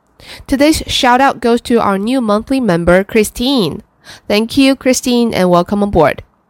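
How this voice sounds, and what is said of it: Sick-sounding voice, mild cold. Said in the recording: “I have to apologize for my voice because I did catch a little cold this weekend, but nothing serious”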